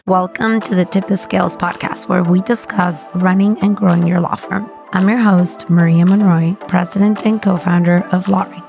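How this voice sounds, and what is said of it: Voice sounds different, strained. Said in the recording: “my voice sounds different, it's because it is... we've been in really loud environments where we have to scream to be heard”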